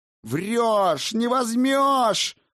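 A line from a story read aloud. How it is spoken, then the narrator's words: Childlike yell. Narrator (Russian): заорал он, словно в босоногом детстве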